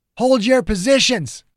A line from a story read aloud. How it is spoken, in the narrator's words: Ogden shouted